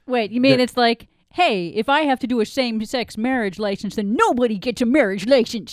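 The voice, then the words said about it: Put-on Kentucky accent. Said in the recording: “That's my Kentucky accent. ... It was good accent. I don't know if it was Kentucky, but it was very entertaining.”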